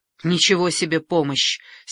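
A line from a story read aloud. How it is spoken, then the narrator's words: Angry interjection. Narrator (Russian): сердито вмешивается Мария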